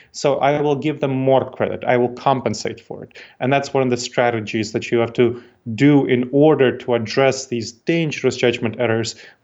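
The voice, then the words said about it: Non-American foreign accent. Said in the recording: “I don't want to pick on your accent ... people you meet hear you, and they don't necessarily feel like you're part of their tribe”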